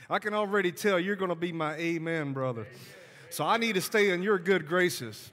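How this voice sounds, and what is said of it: Southern US accent (Alabama). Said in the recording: “You could tell by my accent, I am from the South. I am from Alabama.”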